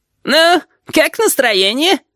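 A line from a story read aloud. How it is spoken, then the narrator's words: Giggling question. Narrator (Russian): спросил хихикающий голос Рибалтера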